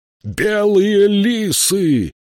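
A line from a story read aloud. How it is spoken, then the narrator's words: Shout. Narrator (Russian): крикнул он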